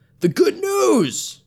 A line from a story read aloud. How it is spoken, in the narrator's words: he shouted